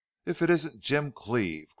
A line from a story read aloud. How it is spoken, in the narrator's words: cried another